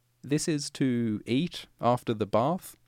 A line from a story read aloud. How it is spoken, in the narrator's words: asked